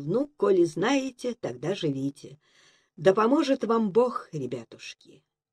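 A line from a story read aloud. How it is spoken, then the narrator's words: Throat-clearing, calm, harmless reply. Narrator (Russian): Прокашлявшись, барин спокойно и безобидно ответил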